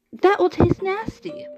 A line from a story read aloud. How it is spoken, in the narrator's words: the cook exclaimed